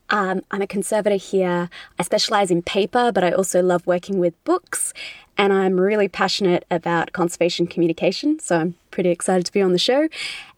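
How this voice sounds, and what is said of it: Australian accent. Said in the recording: “you can probably tell from my accent, I'm from Australia.”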